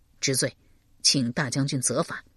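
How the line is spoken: Low voice. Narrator (Chinese): 邓毅低声道

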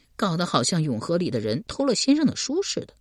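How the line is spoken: Muttering. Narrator (Chinese): 李正嘟囔道

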